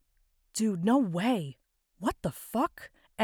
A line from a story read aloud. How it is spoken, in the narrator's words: Whispers